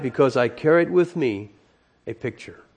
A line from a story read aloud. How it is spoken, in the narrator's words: he calmly replied